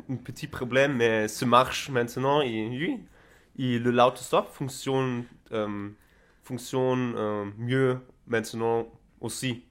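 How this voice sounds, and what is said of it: French spoken with Spanish accent. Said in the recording (French): “tu es un Allemand qui parle le français avec un accent espagnol”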